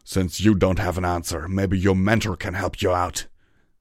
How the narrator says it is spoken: he growled

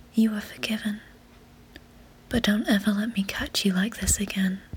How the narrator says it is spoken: said gently

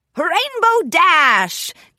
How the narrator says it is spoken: Captain Solano shouted, her beak twisting into a sneaky grin

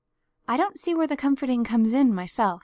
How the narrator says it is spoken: said Marilla

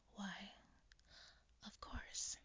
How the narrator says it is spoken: he whispered

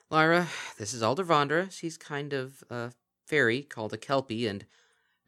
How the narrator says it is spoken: With a sigh, she muttered

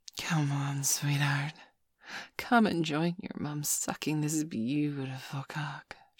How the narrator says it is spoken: she breathed quietly to me, her eyes now all glazed over

